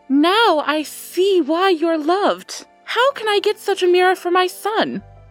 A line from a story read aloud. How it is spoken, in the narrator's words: cried the Queen Mother